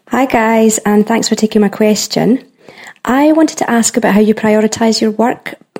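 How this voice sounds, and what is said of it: Scottish accent. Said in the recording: “from Scotland ... she has this amazing accent”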